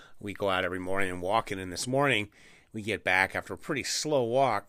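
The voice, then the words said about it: Voice audibly affected, slightly rough. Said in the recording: “The smoke is back in Bakersfield. You can probably hear it in my voice.”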